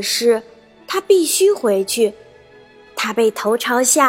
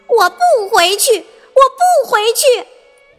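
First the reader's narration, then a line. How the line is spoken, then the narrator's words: Shouting. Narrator (Chinese): 他喊道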